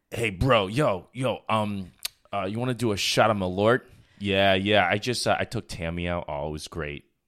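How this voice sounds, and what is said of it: Bro-y dude character voice. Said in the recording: “a very bro-y, like popped my collar, like does shots of Malort type of dude ... that impression”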